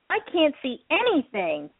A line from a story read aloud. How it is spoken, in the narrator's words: Pinkie Pie exclaimed